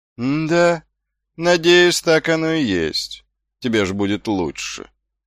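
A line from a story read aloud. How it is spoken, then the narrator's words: Lazy drawling guard. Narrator (Russian): лениво протянул стражник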